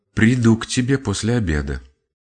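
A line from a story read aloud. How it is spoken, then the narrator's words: Quiet addition. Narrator (Russian): она тихо прибавила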